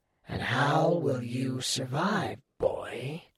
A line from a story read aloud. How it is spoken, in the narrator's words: Arthur hissed